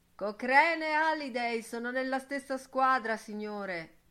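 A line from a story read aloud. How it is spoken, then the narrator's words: Shouted. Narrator (Italian): gridò Steven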